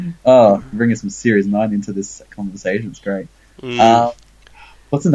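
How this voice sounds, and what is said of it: Usual voice. Nothing is said of it.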